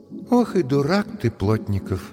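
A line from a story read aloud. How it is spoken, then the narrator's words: Sighing. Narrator (Russian): вздохнув, сказала Машка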